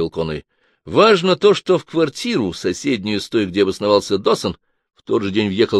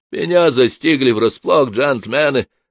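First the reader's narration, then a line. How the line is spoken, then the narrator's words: Groan. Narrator (Russian): простонал Хэтто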